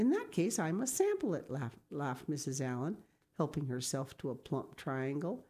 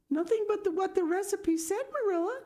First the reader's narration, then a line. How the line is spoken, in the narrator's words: cried Anne with a look of anguish